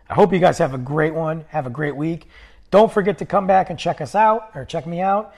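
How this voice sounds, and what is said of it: Strained, failing voice. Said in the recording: “My voice is going. It's on its way out the door. I can't push it anymore.”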